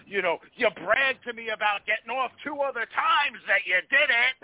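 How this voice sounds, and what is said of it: Imitates another person's voice. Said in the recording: “that's my crazy Nolte impression”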